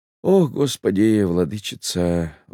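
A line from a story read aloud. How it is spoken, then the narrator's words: Sigh. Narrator (Russian): вздохнул Пантелей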